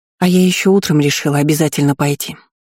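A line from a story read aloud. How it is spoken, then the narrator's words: Calm. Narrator (Russian): спокойно сообщила Варена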